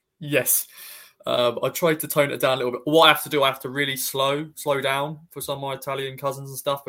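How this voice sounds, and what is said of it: Heavy Suffolk English accent. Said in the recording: “In a heavy Suffolk accent”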